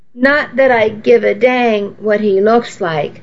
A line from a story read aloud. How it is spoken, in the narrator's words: said